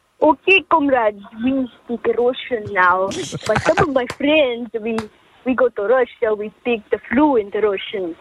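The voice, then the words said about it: Put-on Russian accent, drifting South African. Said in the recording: “your best Russian ... Now it's got a bit South African.”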